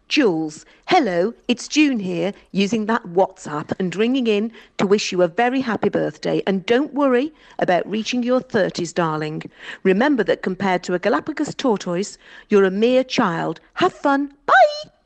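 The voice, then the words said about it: Posh, proper telephone voice. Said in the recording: “telephone voice ... She sounded like she was on The Archers ... I thought it was the Queen's speech at first”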